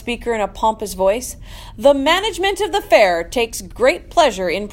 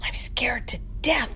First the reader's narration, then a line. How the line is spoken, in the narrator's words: whispered Mrs